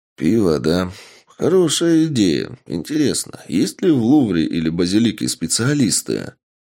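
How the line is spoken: Man mumbling. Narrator (Russian): пробормотал мужчина

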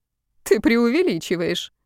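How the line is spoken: Laughing. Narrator (Russian): рассмеялась Томилина

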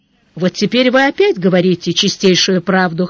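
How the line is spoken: Wry snort. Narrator (Russian): хмыкнул Сварог

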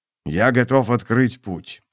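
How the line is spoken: Quiet. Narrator (Russian): тихо проговорил он

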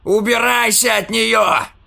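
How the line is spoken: Shouted. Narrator (Russian): закричал он, не зная, кого или что встретит

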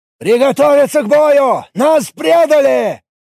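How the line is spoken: Yelling. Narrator (Russian): заорал Наболт

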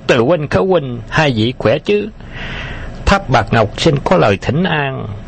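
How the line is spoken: Shrill male voice. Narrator (Vietnamese): một giọng nam the thé vang lên

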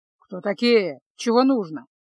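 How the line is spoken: Grumble. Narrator (Russian): пробурчал

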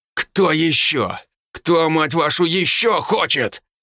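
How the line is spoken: Loud bark filling room. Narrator (Russian): рявкнул я на весь кабинет

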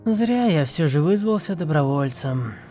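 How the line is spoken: Sighing. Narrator (Russian): вздохнул Илил

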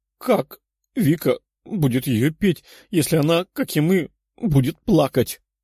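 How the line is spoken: Tearful question. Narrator (Russian): сквозь слезы спросила Лиза

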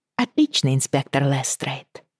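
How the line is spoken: Quiet. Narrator (Russian): тихонько сказала Бриана Роджеру

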